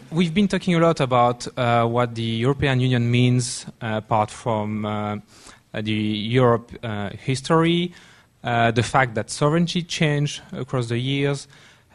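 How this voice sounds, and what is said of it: Noticeable foreign accent. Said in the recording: “my barely noticeable accent”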